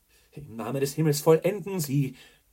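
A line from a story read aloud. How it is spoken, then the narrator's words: Fiery exclamation. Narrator (German): rief feurig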